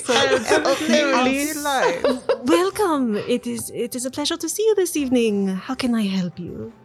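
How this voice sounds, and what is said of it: Deliberately bad French accent. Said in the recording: “a terrible French accent ... you can't pronounce H's though”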